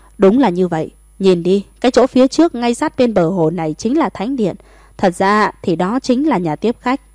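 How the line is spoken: Laughing loudly. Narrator (Vietnamese): Lưu Nghĩa cười lớn, nói

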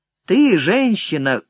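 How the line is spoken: Rough call, young man. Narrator (Russian): грубо окликнул ее проходивший мимо молодой самурай

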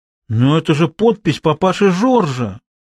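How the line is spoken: Astonished exclamation. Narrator (Russian): изумленно воскликнула Изабель

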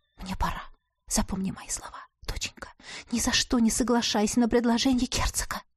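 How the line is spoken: Whisper. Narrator (Russian): Шепнула моя самая родная женщина на свете

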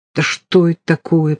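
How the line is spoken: Muttering. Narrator (Russian): пробормотал Сизов

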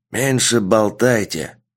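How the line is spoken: Old man's growl. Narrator (Russian): прорычал черный старик

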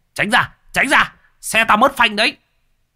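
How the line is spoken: Shouting out the window. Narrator (Vietnamese): thò cổ ra bên cửa hét

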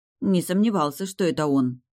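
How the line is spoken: Curt mutter. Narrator (Russian): буркнула я

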